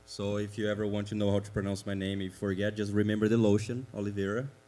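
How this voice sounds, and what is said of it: Brazilian-accented English. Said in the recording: “As you can hear, I have an accent, so you can already know that I'm not from around here. I am from Brazil”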